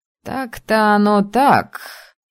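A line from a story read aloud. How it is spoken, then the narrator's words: Wry snort. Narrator (Russian): хмыкнул Али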